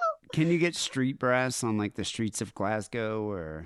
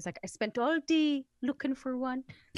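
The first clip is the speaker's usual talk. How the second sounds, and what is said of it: Attempted Geordie accent, admittedly poor. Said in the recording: “I can't do a Geordie accent. I'm really sorry.”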